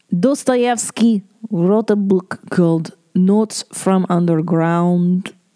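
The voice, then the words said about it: Put-on Russian accent. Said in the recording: “That was my Russian accent.”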